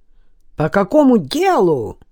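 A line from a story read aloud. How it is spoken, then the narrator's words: Shrill voice. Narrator (Russian): В голосе Валерьевича послышались визгливые нотки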